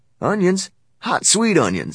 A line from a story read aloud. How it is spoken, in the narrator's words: Sam called out on the street